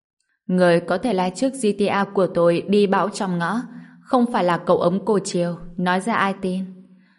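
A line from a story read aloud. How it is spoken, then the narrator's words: Gentle, soft. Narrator (Vietnamese): Vương Lệ Trần nhẹ nhàng nói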